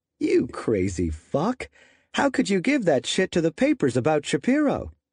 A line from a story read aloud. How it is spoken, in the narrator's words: McNally laughed right back at him